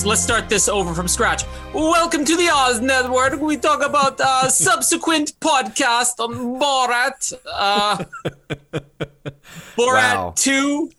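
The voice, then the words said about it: Bad Borat character voice impression. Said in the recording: “that was a bad impersonation.”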